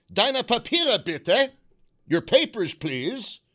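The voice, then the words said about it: Put-on German accent. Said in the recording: “you native German speakers, was the accent okay on that? ... I just want to know how bad the accent is.”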